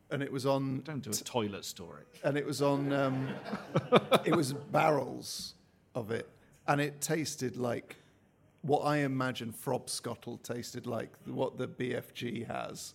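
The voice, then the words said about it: West Country English accent. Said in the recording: “I'm a West Country lad ... you can tell by the accents, can't you? ... You can tell by the accent.”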